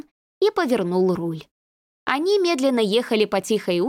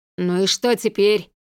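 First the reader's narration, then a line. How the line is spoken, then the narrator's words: Irritated creaky voice. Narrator (Russian): раздраженно проскрипел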